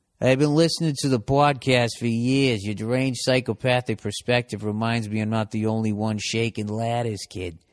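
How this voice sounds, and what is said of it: Put-on Boston accent. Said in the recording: “Is this guy from Boston? ... even if in the accent ... the Boston accent”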